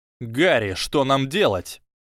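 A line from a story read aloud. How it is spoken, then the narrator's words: Panicked near shout. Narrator (Russian): В панике Драко чуть ли не кричал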